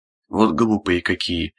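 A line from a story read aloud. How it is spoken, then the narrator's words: Grumbling old woman. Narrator (Russian): ворчала бабка Арсения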